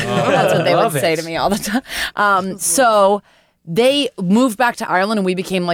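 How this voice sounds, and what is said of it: Usual voice. Nothing is said of it.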